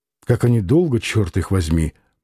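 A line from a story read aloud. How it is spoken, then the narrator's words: Impatient mutter. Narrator (Russian): пробормотал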